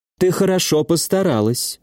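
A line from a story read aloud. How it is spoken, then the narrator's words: Affectionate. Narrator (Russian): ласково сказала Литоса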